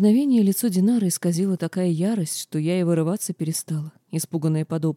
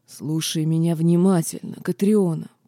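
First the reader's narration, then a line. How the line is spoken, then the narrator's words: Growled, half-orc. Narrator (Russian): прорычал этот недоурк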